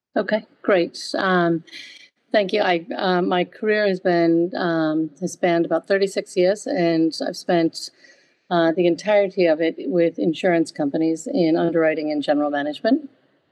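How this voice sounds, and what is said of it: American accent. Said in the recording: “I did start my career in the United States, hence my accent”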